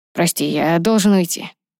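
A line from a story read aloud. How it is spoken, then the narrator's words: Hoarse voice. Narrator (Russian): хриплым голосом произнес Ронан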